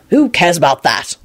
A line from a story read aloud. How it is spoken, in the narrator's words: Lupin said impatiently